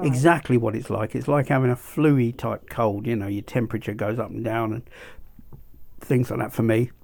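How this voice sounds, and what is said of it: Hoarse voice, like a bad cold. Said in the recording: “that's what you can hear. My throat, my voice isn't that great. ... It's like having a bad cold”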